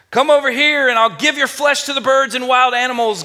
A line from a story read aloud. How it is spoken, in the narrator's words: Goliath yelled